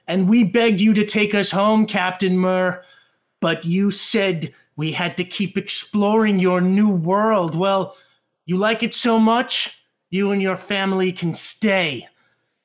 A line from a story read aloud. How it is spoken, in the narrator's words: one of the sailors shouts back